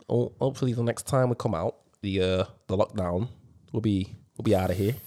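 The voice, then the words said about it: Poor put-on northern English accent. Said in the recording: “what accent's that? ... What accent's that? ... Fucking hell, that was even worse. ... Where are you meant to be from? Are you meant to be from Manchester? ... The north or somewhere. ... Somewhere up north.”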